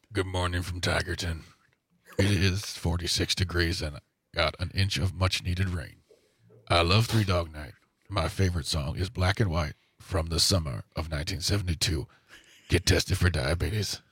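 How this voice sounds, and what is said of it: Imitates another person's voice, poorly. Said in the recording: “Wilford Brimley, if you want ... I know that's a terrible impression of...”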